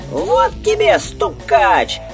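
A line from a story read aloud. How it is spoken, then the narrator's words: Thin high squeak. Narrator (Russian): пискнул тоненький голосок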